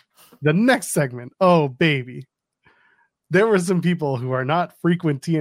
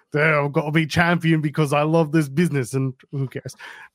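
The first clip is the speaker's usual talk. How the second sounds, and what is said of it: Put-on UK accent like Shrek. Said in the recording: “What was that accent? ... Kind of sounded like Shrek. ... Don't all people from the UK sound like that?”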